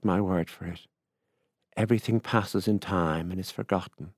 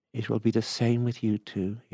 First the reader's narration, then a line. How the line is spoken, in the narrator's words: he added kindly